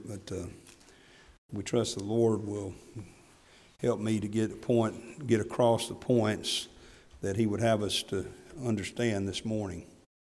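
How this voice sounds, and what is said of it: Strained, unwell voice. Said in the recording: “my voice is not in great shape”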